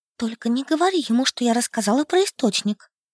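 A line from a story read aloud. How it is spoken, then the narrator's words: Furtive whisper. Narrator (Russian): украдкой шепнула я Генри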